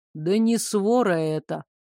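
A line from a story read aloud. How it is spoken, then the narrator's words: Gloomy objection. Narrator (Russian): мрачно возразил я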